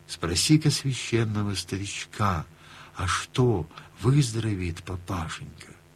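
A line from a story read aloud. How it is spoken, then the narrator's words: Whisper. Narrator (Russian): Горкину прошептал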